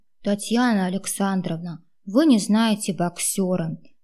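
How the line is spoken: Heavy sigh, sad. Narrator (Russian): тяжело вздохнув, сказал и пригорюнился

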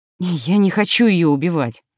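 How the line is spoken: Sighing. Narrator (Russian): вздохнула Фелиса

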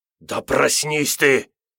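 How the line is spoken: Angry hiss. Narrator (Russian): зашипел сердито

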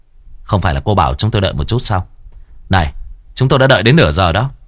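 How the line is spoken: Angry. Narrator (Vietnamese): Bạch Tử Cống tức giận nói với Lễ Tân

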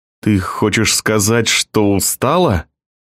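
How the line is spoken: Through gritted teeth. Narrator (Russian): сквозь зубы проговорил он

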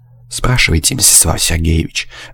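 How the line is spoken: Disdainful, through teeth. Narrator (Russian): брезгливо процедил Высокий

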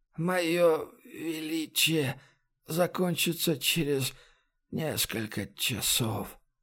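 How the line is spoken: Barely audible breath. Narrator (Russian): едва слышно выдохнул он

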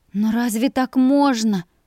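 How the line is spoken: Uncertain faltering murmur. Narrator (Russian): Неуверенно пролепетала я

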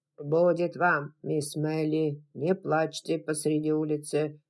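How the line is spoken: Grumbling. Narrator (Russian): заворчал дядюшка Питер

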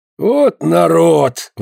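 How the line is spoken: Exclamation, priest. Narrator (Russian): воскликнул священник

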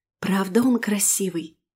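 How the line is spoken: Whispered. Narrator (Russian): проговорила шепотом

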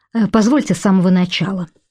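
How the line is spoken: Hurried speech. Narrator (Russian): сказал гость торопливо

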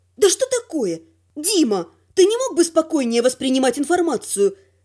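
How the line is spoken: Sharp request. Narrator (Russian): резко попросила я

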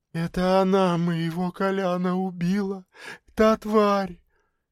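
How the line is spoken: Barely audible whisper. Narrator (Russian): едва слышно прошептала Люся

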